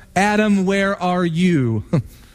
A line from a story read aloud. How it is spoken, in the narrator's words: It was God that cried out to Adam